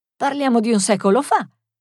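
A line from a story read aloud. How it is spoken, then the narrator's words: Exclamation. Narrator (Italian): esclamò Loretta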